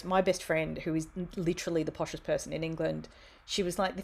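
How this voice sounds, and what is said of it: Broad Australian accent. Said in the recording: “one of them had an Australian friend ... she could hear from my accent that I was this total bogan”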